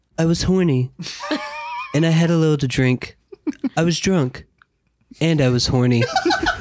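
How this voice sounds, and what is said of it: Imitated Nicolas Cage voice. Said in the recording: “Please do it in your the voice. Do the voice, of course.”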